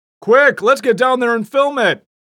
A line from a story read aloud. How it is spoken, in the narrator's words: shouted one bright spark